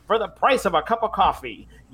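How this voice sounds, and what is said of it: 1920s New York accent. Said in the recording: “Why does he sound like he's like 1920s yeah. New York? ... It's a good accent, though. Very good accent.”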